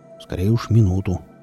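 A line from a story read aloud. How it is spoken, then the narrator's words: Gruff mutter. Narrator (Russian): буркнул Велес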